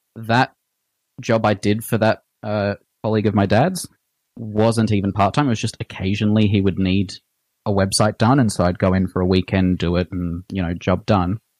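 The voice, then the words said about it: Australian accent. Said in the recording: “from his accent, ... what part of um, Australia are you in?”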